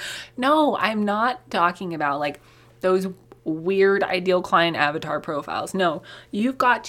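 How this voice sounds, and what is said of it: Usual voice. Nothing is said of it.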